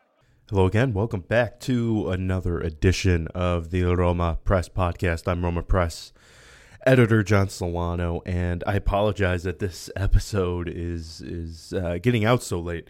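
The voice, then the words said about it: Sick-sounding voice. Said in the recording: “I've been under the weather the past few days, as you can tell by my voice, so I apologize if I sound horrific”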